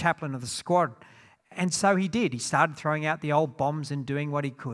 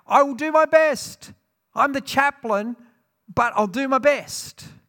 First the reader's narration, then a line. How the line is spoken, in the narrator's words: One man called out